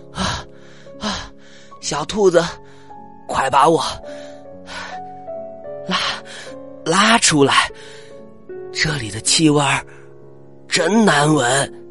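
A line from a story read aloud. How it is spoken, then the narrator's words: Breathless, panting. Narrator (Chinese): 米克气喘吁吁的说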